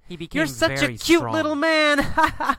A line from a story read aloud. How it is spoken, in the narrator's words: Laughs and says